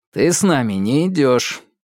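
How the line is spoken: Cold curt remark. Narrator (Russian): холодно бросил Ньют Чаку

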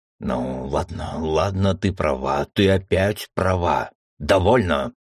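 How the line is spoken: Growled reply. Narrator (Russian): рыкнул в ответ Аргон

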